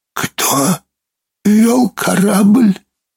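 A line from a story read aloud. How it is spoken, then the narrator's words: Hoarse whispered question. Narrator (Russian): хриплым шепотом спросил Брин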